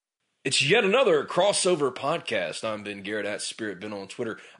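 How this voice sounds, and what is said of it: Deep, congested, scratchy-throated voice. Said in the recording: “I've got my radio voice going this morning. And the reason I do is because I'm sick. ... the sniffles, the scratchy throat”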